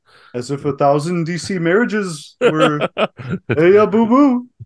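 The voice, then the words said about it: Mashup of several imitated voices. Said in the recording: “That impression truly had everything. It was a little bit of Star Wars thrown in there, a little bit of Yogi Bear, a little bit of Bernie Sanders.”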